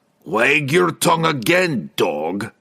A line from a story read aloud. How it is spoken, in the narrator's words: the dwarf roared